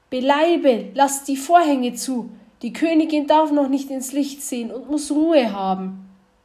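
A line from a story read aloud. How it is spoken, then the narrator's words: Old woman calling quickly. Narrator (German): rief die Alte geschwind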